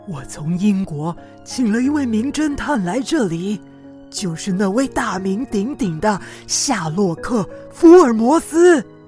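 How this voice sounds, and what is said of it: Lowered, whispered voice. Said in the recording (Chinese): “德凡压低了音量，小声地说”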